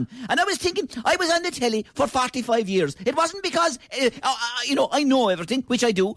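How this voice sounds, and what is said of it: Kerry Irish accent. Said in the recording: “in love with my accent ... Kerry has the greatest accent in all of Ireland”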